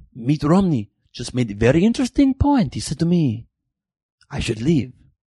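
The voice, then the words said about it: Put-on Italian accent. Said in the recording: “you are Italian. Why are you using that accent?... That's a spicy meatball.”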